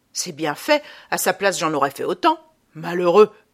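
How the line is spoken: Exclaimed. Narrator (French): s'écria Adolphe

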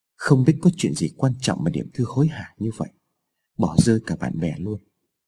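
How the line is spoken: Boy muttering to himself. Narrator (Vietnamese): thằng bé lẩm bẩm nói một mình

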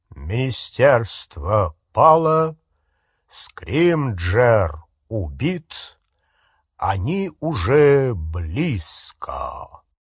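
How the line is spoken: Loud, low, slow male voice. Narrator (Russian): громким, низким, тягучим голосом Кингсли Бруствера сообщил

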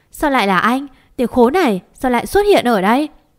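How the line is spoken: Uncontrolled angry scream. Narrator (Vietnamese): Không kiểm lào được, em hét lên

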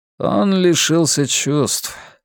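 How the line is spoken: Gloomy remark. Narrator (Russian): мрачно заметил Ренар

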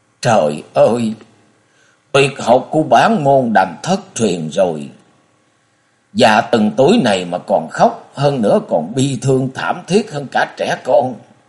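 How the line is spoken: Old nun's sigh, mournful wail. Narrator (Vietnamese): Lão ni nghe Diệu Nhi trả lời kiên quyết như vậy, bà buông tiếng thở dài rồi thê lương gào lên nói

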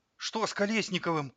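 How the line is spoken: Astonished exclamation. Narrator (Russian): изумленно воскликнул остроносый оператор Игорь Сергеевич

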